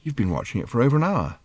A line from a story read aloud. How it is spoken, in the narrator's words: said Arthur quietly